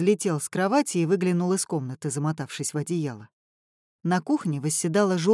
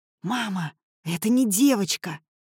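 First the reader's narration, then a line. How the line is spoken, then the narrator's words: Impressive whisper. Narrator (Russian): сказал я внушительным шепотом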